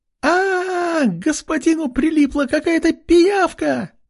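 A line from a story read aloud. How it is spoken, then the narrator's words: Frightened scream. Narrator (Russian): закричала Ама, увидев голову парня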